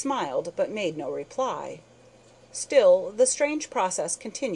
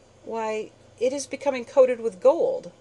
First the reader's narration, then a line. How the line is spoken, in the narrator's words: I exclaimed